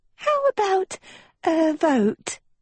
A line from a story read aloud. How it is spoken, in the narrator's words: chirped Uma